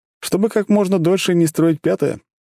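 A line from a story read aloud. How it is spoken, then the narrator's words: Snorting smirk. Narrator (Russian): хмыкнул Макс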